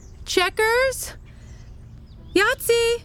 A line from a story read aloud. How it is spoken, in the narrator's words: her ex-girlfriend's voice shouting